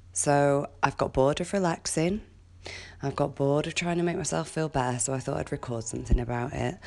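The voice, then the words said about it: Deep, throaty sick voice. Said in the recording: “I've had a cold since Friday and it's now gone right into my throat and given me this lovely deep voice.”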